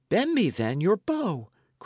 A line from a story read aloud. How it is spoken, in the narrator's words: cried the other